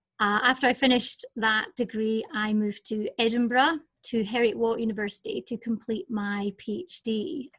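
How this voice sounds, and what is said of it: Scottish accent. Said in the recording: “As you can hear from my accent, I'm originally from Scotland”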